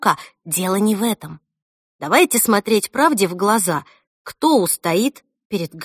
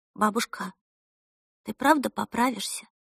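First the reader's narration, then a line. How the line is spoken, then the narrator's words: Timid question. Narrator (Russian): робко спросила Эльса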